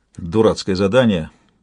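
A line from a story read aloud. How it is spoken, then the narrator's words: Muttering. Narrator (Russian): буркнула Тинталья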